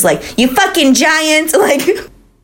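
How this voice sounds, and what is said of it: Put-on New York/New Jersey accent. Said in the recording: “I love the accent that you grabbed there. ... She's from fucking Montana. Like, she probably doesn't have that accent. ... like, in, like, New York, like, New Jersey right now.”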